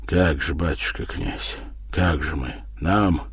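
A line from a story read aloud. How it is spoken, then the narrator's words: Strangled and hoarse. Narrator (Russian): спросил задавленно и хрипло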